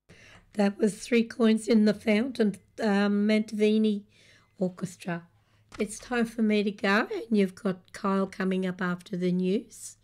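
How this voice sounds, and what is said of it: Voice sounds unwell, not normal. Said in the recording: “sorry about my voice ... I thought I might have been fine by now, but I'm not ... back to my normal sounding voice”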